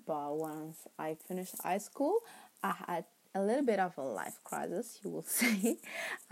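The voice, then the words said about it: Italian-accented English. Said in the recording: “my terrible, terrible accent ... English is not my first language. In fact, I am Italian.”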